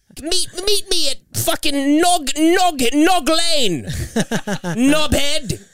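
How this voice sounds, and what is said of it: Poor mock British accent. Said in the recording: “These British fucks ... you're not even doing the accent correctly. No one can ... they don't like hearing Americans do their accent”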